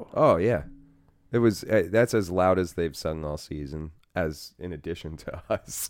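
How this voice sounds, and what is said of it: Hoarse voice lacking usual richness. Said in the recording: “I'm like still hoarse from Sunday. My voice is still kind of. It doesn't have its usual ... chocolatey ... richness.”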